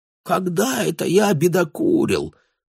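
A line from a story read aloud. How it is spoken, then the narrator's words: Weak clowning voice. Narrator (Russian): споясничал Бруно слабым голосом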